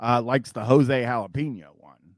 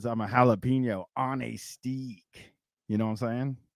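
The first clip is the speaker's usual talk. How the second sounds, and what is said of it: Put-on accent. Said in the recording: “me doing that accent”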